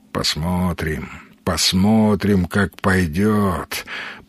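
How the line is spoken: Muttered. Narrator (Russian): пробормотал

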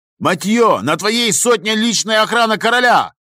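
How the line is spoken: Shouted. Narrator (Russian): крикнул маршал

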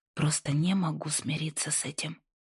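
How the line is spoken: Whisper. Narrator (Russian): прошептала

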